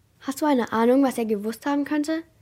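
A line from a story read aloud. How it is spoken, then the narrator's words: Plain. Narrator (German): fragte Jasper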